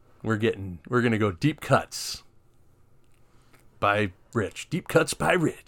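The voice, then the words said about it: Radio DJ style voice. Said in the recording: “I sound like a radio DJ. ... You sound like a radio DJ, yeah.”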